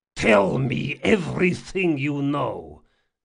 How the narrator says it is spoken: he growled

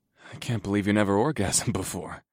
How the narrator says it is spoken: I chuckled

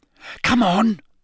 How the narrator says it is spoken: Parvati hissed

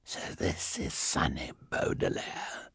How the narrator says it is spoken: he said in his strange, hoarse voice

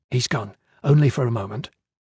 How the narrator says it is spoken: Tia whispered

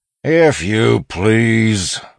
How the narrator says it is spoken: one of the robbers bellowed

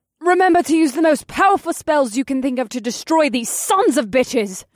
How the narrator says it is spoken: Vanessa cried out

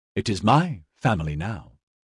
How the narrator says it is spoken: told her calmly

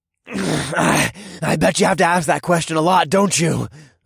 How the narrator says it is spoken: I growled through the pain in my chest

